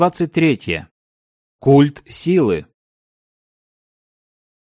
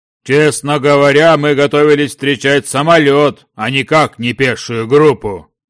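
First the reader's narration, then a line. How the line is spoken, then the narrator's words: Deep booming male voice. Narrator (Russian): пробасил крупный темноволосый мужчина, представившийся Дмитрием Ковалевым, генерал-майором Освободительной армии России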